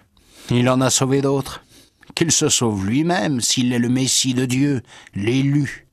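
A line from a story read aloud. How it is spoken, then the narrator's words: Sneering. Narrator (French): il ricanait en disant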